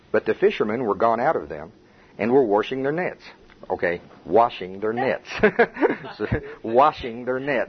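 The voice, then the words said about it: Oklahoma accent. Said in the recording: “My Oklahoma accent says wash”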